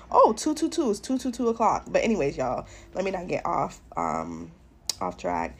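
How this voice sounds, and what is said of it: Sick, tired-sounding voice. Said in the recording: “as you guys can hear from my voice, I'm actually sick again”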